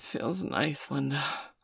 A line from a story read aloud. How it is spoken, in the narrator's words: she breathed